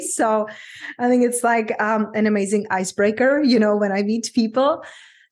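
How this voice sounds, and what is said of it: Czech accent in English. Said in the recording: “I grew up in very small country in Czech Republic ... that's my unpronounceable name and accent”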